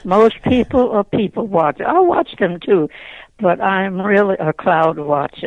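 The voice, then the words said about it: Faint Southern-tinged American accent. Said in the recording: “your accent or your I won't call it a southern drawl, but there is something else there besides Philadelphia ... I still have that little you, accent.”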